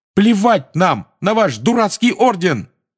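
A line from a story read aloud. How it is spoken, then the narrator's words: Shout. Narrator (Russian): выкрикнул Фред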